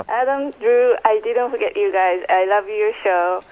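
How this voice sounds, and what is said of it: Japanese accent. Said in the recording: “I'm from Japan... Obviously, from my accent, it's kind of hard to get rid of.”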